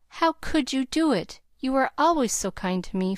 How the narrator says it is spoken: faltered Nat, feeling a strong desire to hug his friend and cry

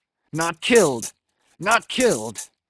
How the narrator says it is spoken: cried Ahab

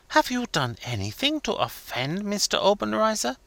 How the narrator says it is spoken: whispered eagerly

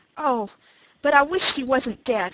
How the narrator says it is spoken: he cried

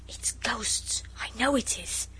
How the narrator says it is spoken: Noel whispered

